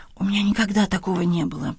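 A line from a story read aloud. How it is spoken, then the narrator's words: Whisper. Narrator (Russian): прошептала Маргарет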